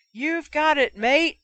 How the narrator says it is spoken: screamed, his voice getting hoarser by the second

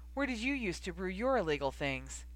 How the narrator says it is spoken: Harry laughed

